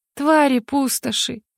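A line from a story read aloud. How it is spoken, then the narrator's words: Quiet curse. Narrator (Russian): выругалась я тихо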